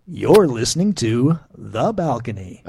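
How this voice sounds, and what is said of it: Announcer-style radio voice. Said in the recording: “you're using radio voice”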